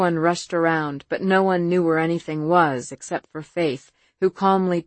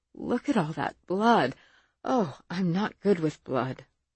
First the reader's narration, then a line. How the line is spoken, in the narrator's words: Evelyn murmur